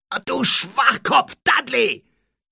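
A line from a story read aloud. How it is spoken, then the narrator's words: Shout. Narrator (German): schrie Harry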